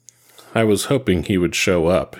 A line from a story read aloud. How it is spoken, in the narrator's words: he said sadly